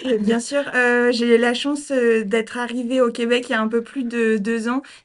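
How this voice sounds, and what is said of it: Non-Québécois French accent. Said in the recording (French): “On voit que tu as un accent, tu as parlé de ta vie avant le Québec.”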